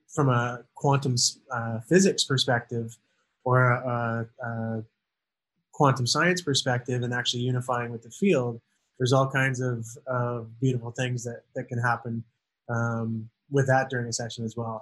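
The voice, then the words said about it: Canadian accent. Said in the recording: “your Canadian accent ... I can pick a Canadian accent a mile away”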